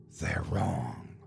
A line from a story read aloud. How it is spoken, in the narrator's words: He whispered